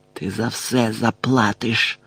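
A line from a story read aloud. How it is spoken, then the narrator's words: Hissed. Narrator (Ukrainian): прошипів Мелфой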